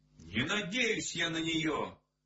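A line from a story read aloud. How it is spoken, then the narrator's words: Shouted. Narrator (Russian): крикнул Владик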